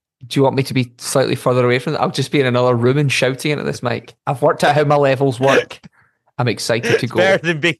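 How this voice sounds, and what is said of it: Very loud voice. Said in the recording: “Wow, you are very loud this week.”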